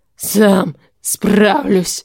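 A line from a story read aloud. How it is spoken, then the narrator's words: Broken hoarse rasp. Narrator (Russian): Прерывисто прохрипел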